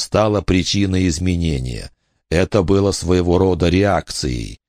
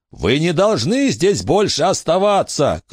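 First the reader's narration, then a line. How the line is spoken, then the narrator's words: Shouting. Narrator (Russian): крикнул Билли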